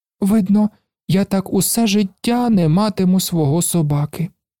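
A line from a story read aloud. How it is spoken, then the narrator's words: Sad voice. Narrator (Ukrainian): сумно сказав він, коли йому випав такий поганий день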